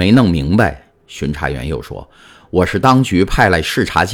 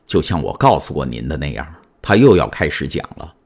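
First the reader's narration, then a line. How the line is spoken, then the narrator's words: Low voice. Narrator (Chinese): 监狱长低声说道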